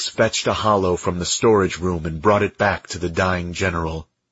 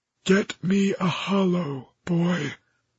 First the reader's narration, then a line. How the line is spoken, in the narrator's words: the general said faintly